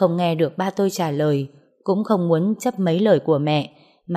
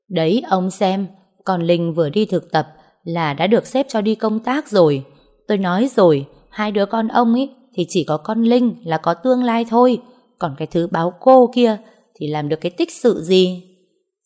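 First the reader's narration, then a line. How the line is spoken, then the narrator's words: Loud booming voice. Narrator (Vietnamese): tiếng mẹ tôi oang oang cất lên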